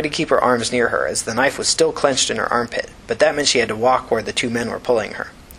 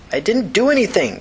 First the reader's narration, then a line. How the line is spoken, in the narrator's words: Tina cried